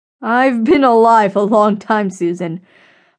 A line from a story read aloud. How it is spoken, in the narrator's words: laughed